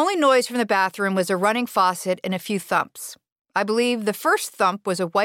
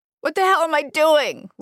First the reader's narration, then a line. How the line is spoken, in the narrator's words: Liz wailed